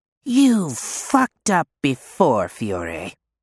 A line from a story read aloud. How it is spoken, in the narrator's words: he hisses